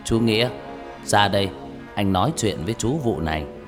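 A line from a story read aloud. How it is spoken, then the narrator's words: Low, mysterious voice. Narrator (Vietnamese): ông nói bằng giọng trầm trầm, đầy bí ẩn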